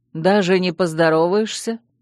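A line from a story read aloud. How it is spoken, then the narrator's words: Mocking question. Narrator (Russian): насмешливо поинтересовался он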